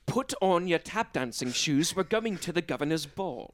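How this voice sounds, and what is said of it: Old-fashioned gentleman character voice. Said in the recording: “every impression you do is just old white dude ... You say it all in Sherlock Holmes voice.”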